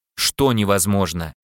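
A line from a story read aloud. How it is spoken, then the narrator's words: Cold question. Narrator (Russian): спросил он холодно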